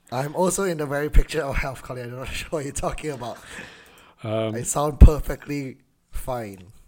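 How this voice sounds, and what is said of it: Hoarse voice. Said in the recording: “it's just a bit of hoarseness going on over there”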